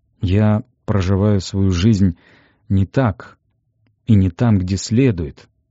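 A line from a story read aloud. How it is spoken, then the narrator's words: Tired. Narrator (Russian): сказал он устало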